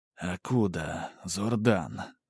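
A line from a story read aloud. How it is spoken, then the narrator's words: Mental whisper. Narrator (Russian): мысленно прошептал маг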